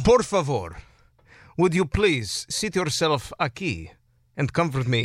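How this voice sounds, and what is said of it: Put-on Spanish accent. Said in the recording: “She's Romanian, but she speaks with a Spanish accent.”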